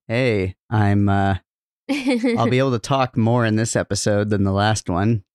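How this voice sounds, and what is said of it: Rough, not fully recovered voice. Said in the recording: “My voice is still rough and not fully recovered”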